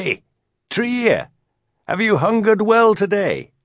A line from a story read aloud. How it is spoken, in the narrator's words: Crane Man called out